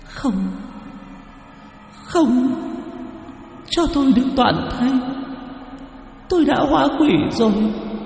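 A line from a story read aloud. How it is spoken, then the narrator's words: Girl sobbing harder. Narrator (Vietnamese): Cô gái nghe vậy lại càng nức nở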